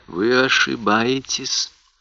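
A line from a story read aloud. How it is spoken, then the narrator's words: Barely audible. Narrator (Russian): произнес он едва слышно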